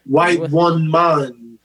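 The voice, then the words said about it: Put-on Jamaican accent. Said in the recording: “you brought the Jamaican with accent”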